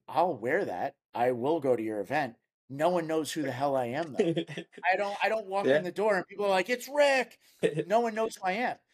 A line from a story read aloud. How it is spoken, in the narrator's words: I'll laugh and I'll be like